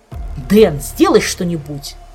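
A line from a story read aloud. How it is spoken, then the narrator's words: Irritated demand. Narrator (Russian): раздраженно потребовал он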